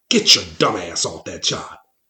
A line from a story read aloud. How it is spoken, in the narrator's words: hissing